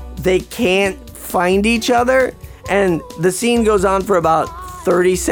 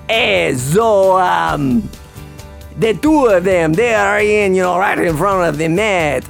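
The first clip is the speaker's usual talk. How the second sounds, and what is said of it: Exaggerated put-on Italian accent. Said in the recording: “that shitty Italian accent of Moonstruck ... I gotta Mario it up a bit”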